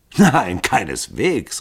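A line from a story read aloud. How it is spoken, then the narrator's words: Laughing exclamation. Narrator (German): rief Hall lachend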